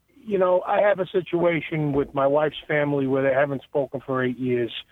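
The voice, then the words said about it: Long Island accent. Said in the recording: “Long Island ... Accent ... everybody thinks I talk funny”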